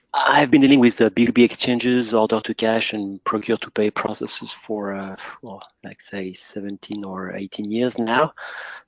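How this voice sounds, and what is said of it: French accent in English. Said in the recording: “I'm French, as you will soon figure out by my accent.”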